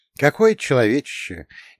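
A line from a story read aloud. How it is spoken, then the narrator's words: Envious sigh. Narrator (Russian): Не без зависти вздохнул я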